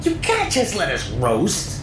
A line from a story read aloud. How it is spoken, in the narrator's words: Nick squealed